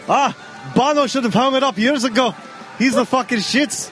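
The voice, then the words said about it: Inconsistent put-on Irish accent. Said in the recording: “Aren't I Irish, though? ... Your accent's changed three times.”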